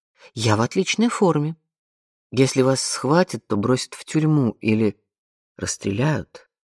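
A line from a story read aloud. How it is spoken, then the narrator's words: Quiet. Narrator (Russian): тихо проговорил Леви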